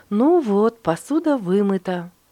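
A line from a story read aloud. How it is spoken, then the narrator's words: Cheerful. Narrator (Russian): весело сказала мама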